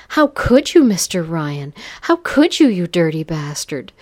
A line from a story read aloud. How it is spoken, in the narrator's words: cried out breathlessly